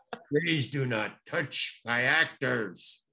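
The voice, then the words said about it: Deep stern voice. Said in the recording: “that deep voice hit.”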